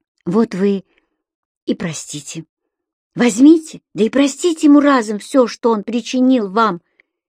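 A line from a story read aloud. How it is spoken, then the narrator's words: Forceful whisper. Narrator (Russian): силой прошептала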